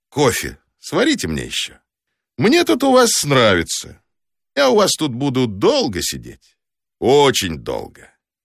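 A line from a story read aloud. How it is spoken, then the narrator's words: Cheerful, then unhurried. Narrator (Russian): ответил я ей весело, добавил не спеша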